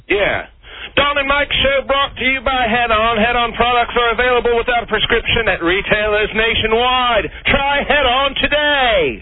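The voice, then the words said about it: Put-on British accent, Robin Leach-like. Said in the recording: “that's a better British accent. He's worked on it. ... Robin Leach-esque. ... Not as charming.”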